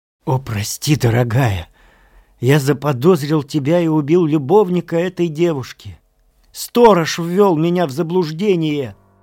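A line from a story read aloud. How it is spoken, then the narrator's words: Exclaiming. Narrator (Russian): Он понял все и, упав к моим ногам, воскликнул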